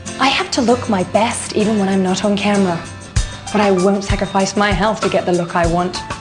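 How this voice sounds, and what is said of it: Posh British accent. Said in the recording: “Despite her accent ... the posh girl from a posh family in the United Kingdom”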